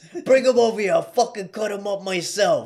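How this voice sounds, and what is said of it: New York accent impression of Mr. Brown. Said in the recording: “He's got that voice... He's got that New York swag to him, that accent to him... That's pretty good”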